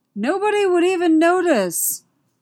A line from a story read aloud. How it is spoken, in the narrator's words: Han yelled after him